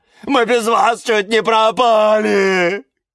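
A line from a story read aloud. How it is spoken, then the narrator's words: Shouting ever louder. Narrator (Russian): кричал Каланхоэ все громче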